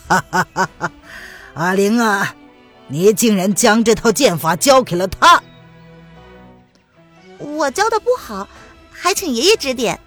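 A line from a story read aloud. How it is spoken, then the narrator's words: Hearty laughter. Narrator (Chinese): 蒋听松大笑着道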